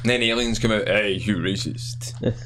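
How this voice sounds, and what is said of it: Sudden deep voice. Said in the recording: “I don't know why I got deep voice there.”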